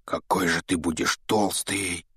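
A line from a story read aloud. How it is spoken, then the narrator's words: Whispered. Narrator (Russian): прошептал Рон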